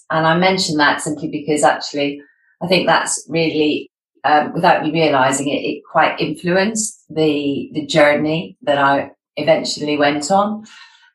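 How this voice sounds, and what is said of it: Scottish accent. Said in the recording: “you might have gathered from my accent that I'm Scottish”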